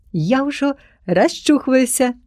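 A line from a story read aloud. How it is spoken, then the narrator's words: Shouted. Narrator (Belarusian): закрычала Насцішка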